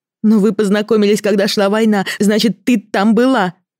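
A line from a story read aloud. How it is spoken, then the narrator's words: Angry shout. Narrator (Russian): зло выкрикнула я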